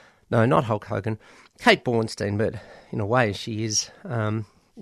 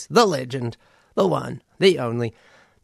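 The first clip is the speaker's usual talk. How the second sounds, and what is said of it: Wrestling announcer voice. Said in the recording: “my best World Wrestling Entertainment announcer voice”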